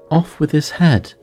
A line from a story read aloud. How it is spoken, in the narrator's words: the Queen never left off quarrelling with the other players and shouting